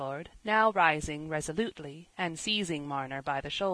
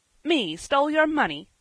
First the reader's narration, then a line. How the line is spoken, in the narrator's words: said Jem, angrily